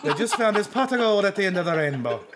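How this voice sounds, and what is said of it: Bad put-on Irish accent. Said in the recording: “That is the worst Irish accent I've ever heard.”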